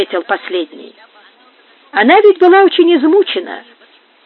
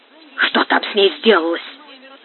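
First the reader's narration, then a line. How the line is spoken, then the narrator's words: Whisper. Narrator (Russian): сказал он шепотом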